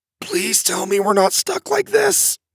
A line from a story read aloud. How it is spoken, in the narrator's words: he wheezed